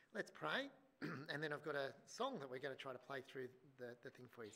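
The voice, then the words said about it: Slightly strained, worn voice. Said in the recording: “My voice is playing up a little bit because I was here last night”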